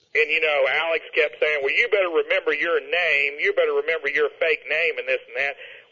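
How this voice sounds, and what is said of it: Texas accent. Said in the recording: “our accents from Texas kind of made that believable”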